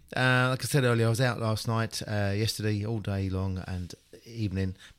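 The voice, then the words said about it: Slightly raspy voice. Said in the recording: “I'm a bit raspy.”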